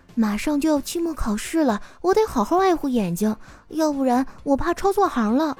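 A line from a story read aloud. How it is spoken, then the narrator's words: Quiet. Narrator (Chinese): 小声的跟我说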